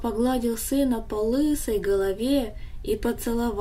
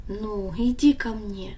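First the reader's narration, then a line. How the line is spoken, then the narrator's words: Gentle. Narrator (Russian): Отец ласково сказал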